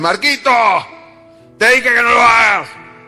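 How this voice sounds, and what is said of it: Shouting. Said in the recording (Spanish): “primero te susurra, después te habla, después te grita”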